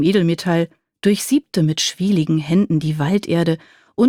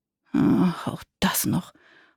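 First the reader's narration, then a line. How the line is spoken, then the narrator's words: Goblin muttering. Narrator (German): murmelte der Kobold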